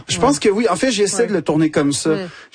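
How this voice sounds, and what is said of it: Quebec French accent. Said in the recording (French): “l'accent québécois... le fait que tu dis avec cet accent”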